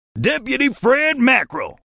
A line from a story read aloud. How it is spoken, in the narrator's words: he yelled